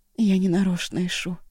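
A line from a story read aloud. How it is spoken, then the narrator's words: Sad. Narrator (Russian): печально выговорила Ашун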